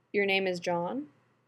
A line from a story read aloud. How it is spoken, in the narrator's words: Rodney asks